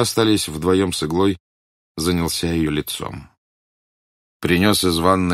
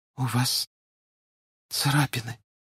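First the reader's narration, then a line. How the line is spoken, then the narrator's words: Quiet. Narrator (Russian): тихо сказала Игла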